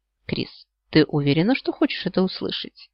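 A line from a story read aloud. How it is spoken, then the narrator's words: Quiet question. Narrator (Russian): негромко спросил мужчина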